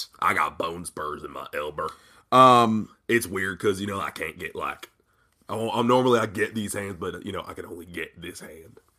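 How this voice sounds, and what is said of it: West Virginian good-old-boy impression voice. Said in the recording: “my Braun impersonation ... the Braun Strowman voice ... pretend to be a good old boy ... It's not the West Virginian accent that you're giving him.”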